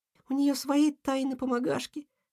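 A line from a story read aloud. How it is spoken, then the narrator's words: Whispered. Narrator (Russian): шепнула ежинка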